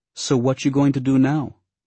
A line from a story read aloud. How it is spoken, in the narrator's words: Belly asked